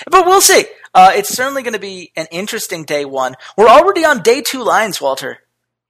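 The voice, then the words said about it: Excited, energetic speaking voice. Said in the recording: “I'm just so excited about games. I really am. You can tell in my voice.”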